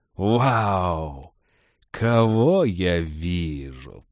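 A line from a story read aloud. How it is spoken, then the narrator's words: Drawling. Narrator (Russian): протянул он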